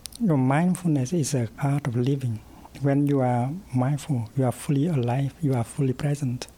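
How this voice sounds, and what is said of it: Soft-spoken Vietnamese-French accent. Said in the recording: “his Vietnamese-French accent difficult to follow at first ... his soft-spoken intensity”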